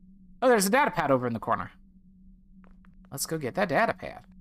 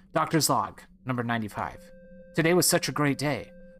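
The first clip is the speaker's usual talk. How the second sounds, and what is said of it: Put-on character voice for doctor. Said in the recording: “why am I doing that voice for the doctor?”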